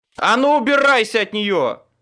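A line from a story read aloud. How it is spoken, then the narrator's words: Barked. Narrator (Russian): рявкнул я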